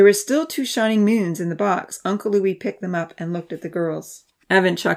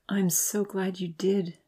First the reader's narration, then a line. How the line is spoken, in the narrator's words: she whispered